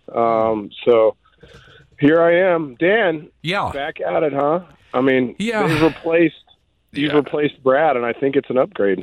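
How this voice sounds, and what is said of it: Hoarse, raspy voice. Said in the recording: “excuse my voice. I've got a little bit of a cold ... I have this awesome raspy voice ... I'm going to fight through a raspy voice”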